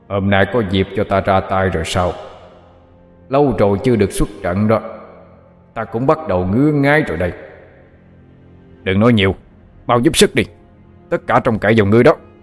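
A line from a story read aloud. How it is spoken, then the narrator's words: Deep gruff question. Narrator (Vietnamese): Nó cất giọng ồm ồm hỏi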